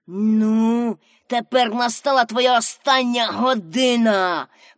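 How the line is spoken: Hissed through teeth. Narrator (Ukrainian): просичав він крізь зуби

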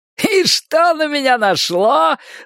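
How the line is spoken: Guffawing. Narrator (Russian): захохотал Рой

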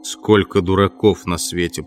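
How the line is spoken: Grumbling. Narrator (Russian): проворчал он

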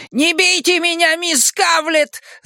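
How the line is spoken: High trembling shriek. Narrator (Russian): заверещал Ричи высоким дрожащим голосом Пиканини

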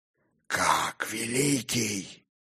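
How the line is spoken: Hoarse growled whisper. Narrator (Russian): хрипло прорычал он, стараясь, чтобы получился шепот

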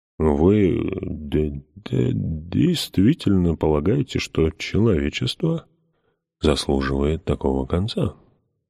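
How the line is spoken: Gentle question. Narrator (Russian): мягко спросил он

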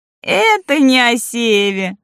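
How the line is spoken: Laughing. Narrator (Russian): засмеялась Лолита

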